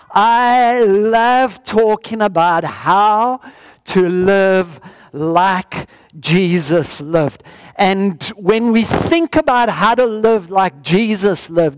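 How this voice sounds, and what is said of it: Strange accent. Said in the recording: “Are you understanding the strange accent? Or must I slow it down?”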